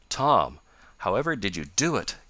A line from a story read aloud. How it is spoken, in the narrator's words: gasped Ned at length